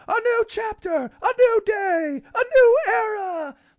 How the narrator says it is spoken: Tony Schiavone screaming

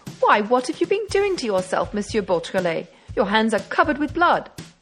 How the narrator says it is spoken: the magistrate exclaimed

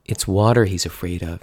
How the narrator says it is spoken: she said

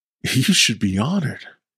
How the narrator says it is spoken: he chuckled

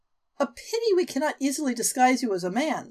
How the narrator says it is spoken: Celeste said wistfully

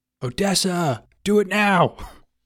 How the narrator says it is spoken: Nick yells down

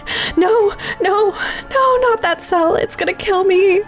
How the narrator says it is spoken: The man was screaming

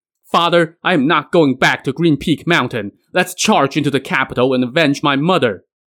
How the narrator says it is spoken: Huang Tianhua now wept uncontrollably and shouted

